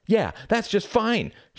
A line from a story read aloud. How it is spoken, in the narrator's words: shouted Reginald